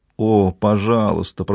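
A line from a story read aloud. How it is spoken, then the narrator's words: Moaning. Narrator (Russian): простонала Мари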